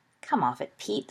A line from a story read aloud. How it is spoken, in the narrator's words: scoffed Black